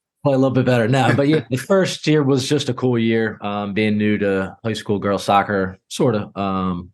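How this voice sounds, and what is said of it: Hoarse, sick-sounding voice. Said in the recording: “Sorry about my voice. I'm a little sick ... screaming at players”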